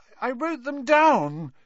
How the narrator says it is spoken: Neville was saying tearfully

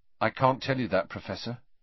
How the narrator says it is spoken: said Harry

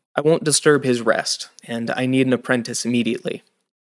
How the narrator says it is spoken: more gently

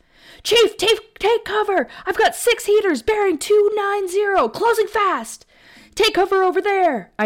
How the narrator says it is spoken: I yelled

